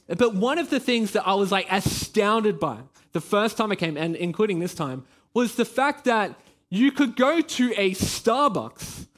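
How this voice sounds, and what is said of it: Australian accent. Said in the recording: “I am Australian. You know, you can probably hear it in my voice.”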